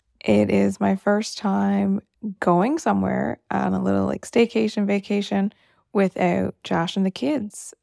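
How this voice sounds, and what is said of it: Tired late-night voice. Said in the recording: “It's late, you can tell by my voice.”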